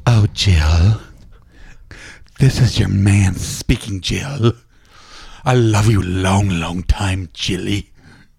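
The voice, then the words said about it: Put-on sexy seductive voice. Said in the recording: “do your VO, sexy VO ... sexy voice? ... Impression.”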